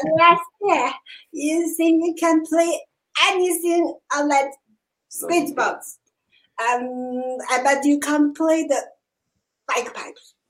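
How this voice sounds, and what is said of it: Put-on Scottish accent. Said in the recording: “I tried to imitate his accent in Scottish ... you dead on. You were dead on.”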